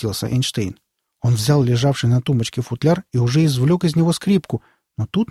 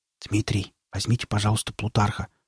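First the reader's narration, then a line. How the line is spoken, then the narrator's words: Whispered. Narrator (Russian): шепотом проговорил Александр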